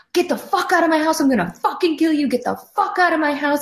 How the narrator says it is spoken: just screaming

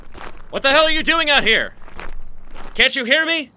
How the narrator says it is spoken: shouted again

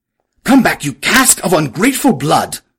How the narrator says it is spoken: He cried

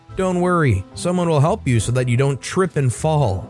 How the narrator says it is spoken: he said loudly

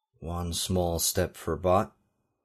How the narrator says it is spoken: he murmured, emulating Neil Armstrong's Apollo 11 saying

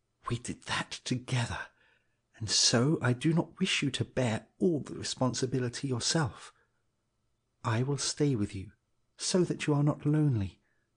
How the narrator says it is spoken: He could almost hear the tarn whisper in his ear

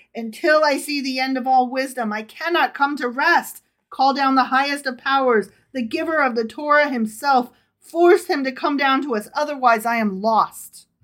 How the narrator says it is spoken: the son of Rabbi Adam cried

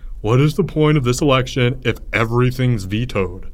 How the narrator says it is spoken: Albert wailed

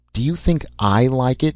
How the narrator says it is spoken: asked fiercely

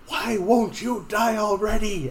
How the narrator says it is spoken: Galdrian is going to yell

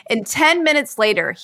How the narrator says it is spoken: he yelled out from the other room

